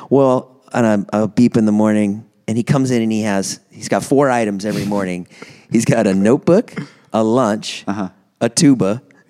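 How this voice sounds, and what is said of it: Slight Southern accent impression. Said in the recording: “he talks nasally or like with a British accent ... I think it's a Southern accent ... It's just like a little Southern twinge ... Keep talking as him”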